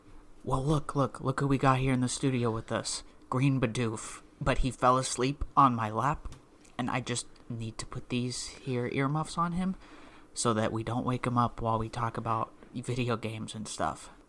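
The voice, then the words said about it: Whispering. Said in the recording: “you're whispering”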